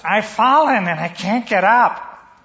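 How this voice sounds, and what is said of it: Imitates an elderly woman's voice. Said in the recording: “that was my imitation”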